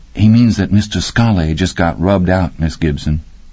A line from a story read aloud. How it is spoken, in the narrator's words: Billy Boy said in his soft, polite voice